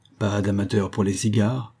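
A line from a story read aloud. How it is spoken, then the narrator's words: Sneering. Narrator (French): ricana-t-il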